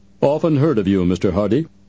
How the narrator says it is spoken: the actor said in a surprisingly deep voice that had a comical effect in contrast to his diminutive appearance

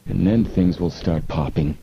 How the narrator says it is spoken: Frank murmured

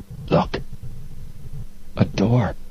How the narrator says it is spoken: Joe whispered tensely

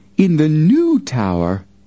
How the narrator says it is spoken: Miss Applegate cried out

